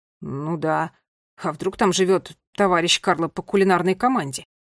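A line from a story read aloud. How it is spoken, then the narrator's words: Grumbling. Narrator (Russian): Пробурчал Ларри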